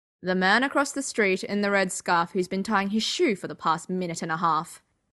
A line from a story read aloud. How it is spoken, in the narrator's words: Sherlock said in a dry tone